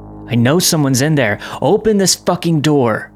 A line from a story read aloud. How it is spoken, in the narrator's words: He was shouting